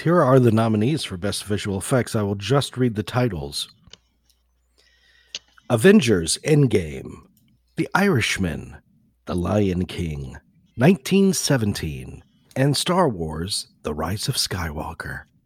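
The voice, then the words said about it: Smooth polished radio-announcer voice. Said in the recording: “You have such a good radio voice.”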